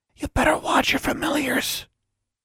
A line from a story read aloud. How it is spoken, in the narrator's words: Tomo whispered